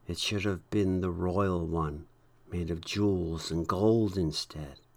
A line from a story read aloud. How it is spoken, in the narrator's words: many of the saints said quietly